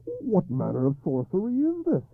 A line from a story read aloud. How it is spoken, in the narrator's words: he cried hoarsely